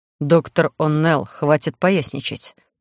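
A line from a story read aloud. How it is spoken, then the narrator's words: Boss speaking through teeth. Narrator (Russian): процедил сквозь зубы господин начальник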